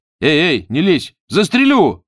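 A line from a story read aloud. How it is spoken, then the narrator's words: Shouting. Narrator (Russian): закричал он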